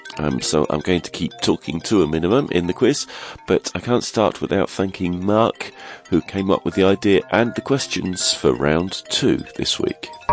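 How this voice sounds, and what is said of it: Congested, stuffy-nosed voice. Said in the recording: “As you can no doubt tell, I have a cold”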